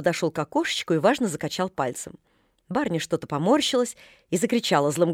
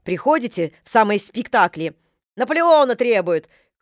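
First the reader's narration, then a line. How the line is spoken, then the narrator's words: Shouted from behind curtain. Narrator (Russian): крикнула она под занавеску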